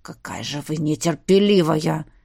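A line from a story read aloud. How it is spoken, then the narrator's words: Quiet growl. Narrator (Russian): Тихо прорычал он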